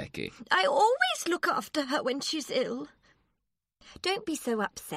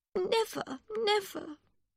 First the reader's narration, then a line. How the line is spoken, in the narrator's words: Miss Briggs said sadly